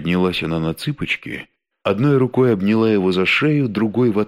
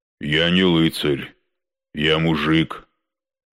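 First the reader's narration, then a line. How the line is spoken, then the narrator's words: Gloomy deep bass. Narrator (Russian): хмуро пробасил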